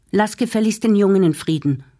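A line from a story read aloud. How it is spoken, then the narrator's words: Calling out. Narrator (German): rief Zdenka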